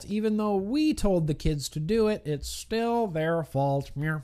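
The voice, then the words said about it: Mock politician speaking voice. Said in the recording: “That's my politician impression, by the way. That's how politicians talk.”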